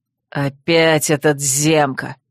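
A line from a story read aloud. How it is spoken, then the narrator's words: Growled. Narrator (Russian): рыкнул Койл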